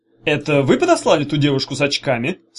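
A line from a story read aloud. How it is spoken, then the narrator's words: Plain question. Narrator (Russian): спросил Чемоданов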